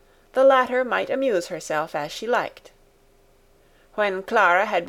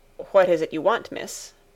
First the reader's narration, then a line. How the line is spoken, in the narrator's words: Sebastian looked surprised and said somewhat curtly